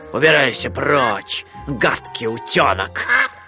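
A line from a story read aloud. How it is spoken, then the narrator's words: Growled. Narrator (Russian): Рыкнул он на него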